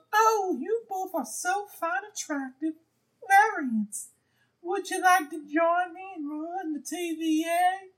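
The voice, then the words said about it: Miss Minutes impression. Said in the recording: “my Miss Minutes impression is better than any impression”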